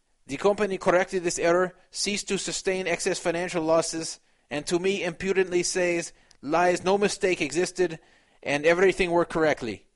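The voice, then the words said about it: Put-on Russian-sounding accent. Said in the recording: “my accent got a little bit better as I went along here ... I kind of sound like a combination of Chico Loco and Russian”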